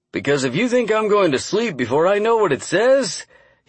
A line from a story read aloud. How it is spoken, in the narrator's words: he said with a laugh